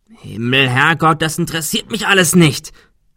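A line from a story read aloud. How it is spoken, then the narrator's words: Shouting. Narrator (German): schrie Adrian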